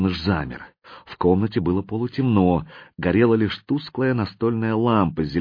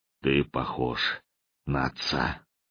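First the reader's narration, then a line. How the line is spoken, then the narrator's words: Muffled hollow voice. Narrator (Russian): Слон глухо сказал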